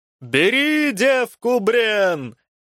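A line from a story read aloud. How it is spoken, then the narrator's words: Shouted. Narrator (Russian): первым закричал Славомир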